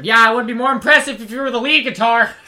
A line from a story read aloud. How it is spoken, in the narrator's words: Eugene shouts after him